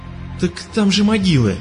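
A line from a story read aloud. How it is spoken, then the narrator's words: Excited cry. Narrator (Russian): взволнованно вскрикнул Рон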